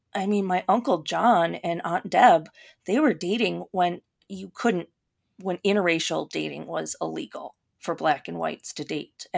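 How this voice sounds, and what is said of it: Minnesota accent. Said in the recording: “people can probably tell because of my accent that I sound like I'm from Minnesota”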